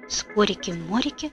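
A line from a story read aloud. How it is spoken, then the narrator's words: Whisper. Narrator (Russian): прошептал Страшила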